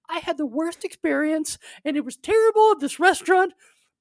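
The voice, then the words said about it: Impression of the speaker's mother. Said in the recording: “that's a good impression of your mom”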